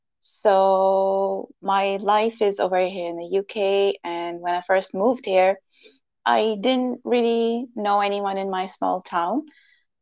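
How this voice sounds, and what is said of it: Pakistani-accented English. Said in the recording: “my funny accent, I was born and raised in Pakistan”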